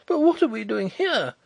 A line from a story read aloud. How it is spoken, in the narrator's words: exclaimed Hollyer, pale and horrified